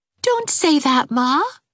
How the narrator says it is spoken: begged Pauline

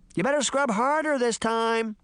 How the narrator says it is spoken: Puck shouted to the little girl

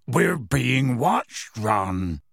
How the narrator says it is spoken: said gruffly

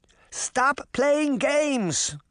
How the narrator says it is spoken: Granny Relda cried

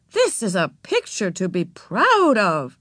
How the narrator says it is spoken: exclaimed

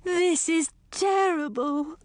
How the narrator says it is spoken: the queen wailed

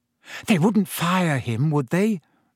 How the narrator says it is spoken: said Hermione anxiously

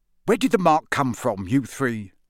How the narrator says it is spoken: said Mr

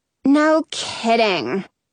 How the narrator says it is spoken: Coco says with a sigh

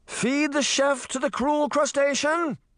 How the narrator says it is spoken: the merman assistant shouted

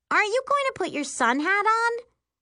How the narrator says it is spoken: She says rather loudly

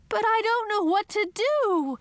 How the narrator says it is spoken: I wailed

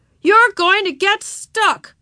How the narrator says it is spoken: he yelled

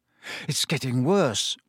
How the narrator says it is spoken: Harry muttered

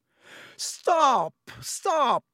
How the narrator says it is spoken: screamed Lockhart

